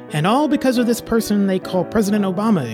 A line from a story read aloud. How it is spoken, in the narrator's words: exclaimed the demon of envy, Jeb Bush